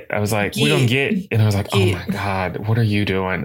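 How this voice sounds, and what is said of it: Southern American accent. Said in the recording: “my southern accent ... I love your southern accent.”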